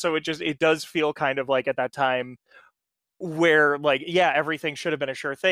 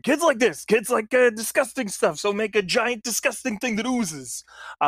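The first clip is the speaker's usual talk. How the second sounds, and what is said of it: Impression of a toy company CEO. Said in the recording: “That's my impression of a toy CEO, I guess. ... Pretty much nailed it.”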